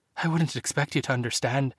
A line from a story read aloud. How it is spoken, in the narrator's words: Maeve whimpered